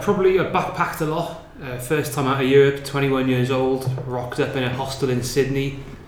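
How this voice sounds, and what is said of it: Welsh accent. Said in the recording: “heard my accent... I'm from Wales”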